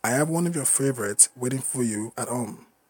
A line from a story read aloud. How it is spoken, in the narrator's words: Luciana said